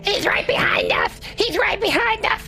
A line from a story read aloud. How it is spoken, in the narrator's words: running frantically, screaming